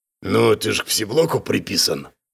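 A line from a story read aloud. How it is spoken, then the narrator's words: Deep bass voice. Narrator (Russian): пробасил левый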